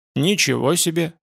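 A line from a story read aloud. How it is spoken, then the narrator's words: Stunned mutter. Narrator (Russian): пробормотал он ошеломленно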